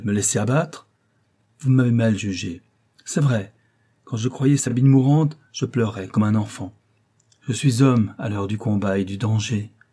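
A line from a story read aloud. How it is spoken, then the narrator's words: Exclaiming. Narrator (French): s'écria-t-il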